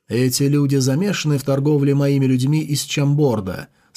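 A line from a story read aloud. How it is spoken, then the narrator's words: Plain. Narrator (Russian): спросил Сун Фэй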